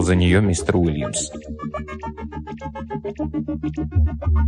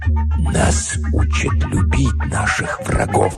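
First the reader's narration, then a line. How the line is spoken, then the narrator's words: Whispered. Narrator (Russian): прошептал мистер Уильямс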